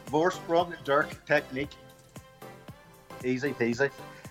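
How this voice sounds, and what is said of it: Put-on foreign accent. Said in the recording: “I have to put on an accent here”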